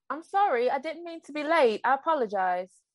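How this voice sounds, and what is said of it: Put-on British accent, believable. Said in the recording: “my impression of a British accent ... I heard it when you said, "I apologize." ... Yeah, it was believable.”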